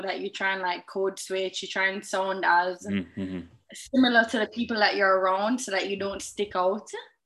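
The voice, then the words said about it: Exotic-sounding accent. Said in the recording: “a little bit exotic”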